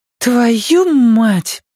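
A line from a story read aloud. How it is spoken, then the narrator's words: Boy's thin, emotional exhale. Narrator (Russian): с чувством выдыхает мальчик тонким голосом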